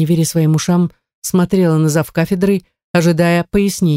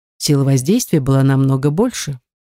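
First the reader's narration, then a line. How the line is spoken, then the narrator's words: Calm explanation. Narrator (Russian): спокойно пояснил местер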